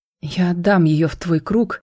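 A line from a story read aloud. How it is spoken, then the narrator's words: Trembling voice. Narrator (Russian): дрожащим голосом произнес мой отец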